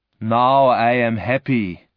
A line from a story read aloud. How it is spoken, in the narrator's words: the monster said